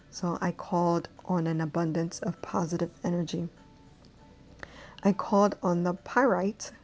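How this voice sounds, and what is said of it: Caribbean accent. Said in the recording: “My Caribbean accent sometimes, oh Lord, gets the best out of me.”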